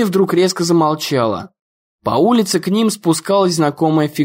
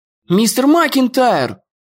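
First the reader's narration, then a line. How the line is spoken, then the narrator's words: Shouting. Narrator (Russian): закричал Дэн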